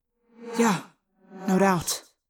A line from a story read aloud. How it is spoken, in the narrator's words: Tobias said bitterly